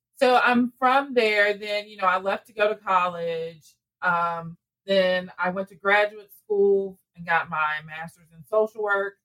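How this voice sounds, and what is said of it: Southern US drawl. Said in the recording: “It's a very southern rural town, and I'm sure you can all hear my accent. ... The southern drawl, is that what they call it? ... Southern drawl.”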